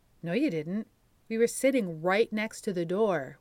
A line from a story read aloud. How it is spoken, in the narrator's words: replied